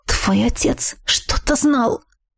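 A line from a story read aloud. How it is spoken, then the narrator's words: Hissing. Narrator (Russian): прошипела она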